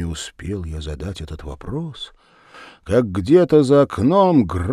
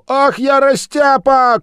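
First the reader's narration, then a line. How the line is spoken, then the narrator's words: Shouting. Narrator (Russian): крикнул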